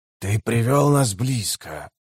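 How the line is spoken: Creaking voice. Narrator (Russian): проскрипел Уругал

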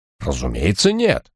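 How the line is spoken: Indignant snort. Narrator (Russian): возмущенно фыркнул Бенсон

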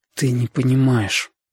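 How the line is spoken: Breathed out. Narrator (Russian): выдохнул Витька

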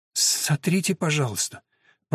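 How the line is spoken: Whisper. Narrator (Russian): прошептала она

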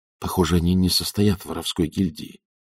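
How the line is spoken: Whisper. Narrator (Russian): прошептал он

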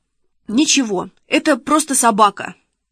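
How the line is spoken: Babbling. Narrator (Russian): пролепетал Шишкин

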